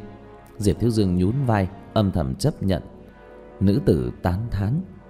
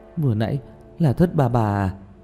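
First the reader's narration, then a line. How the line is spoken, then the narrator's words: Sighing question. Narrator (Vietnamese): Tiểu Mã thở dài một hơi, hỏi Diệp Thiếu Dương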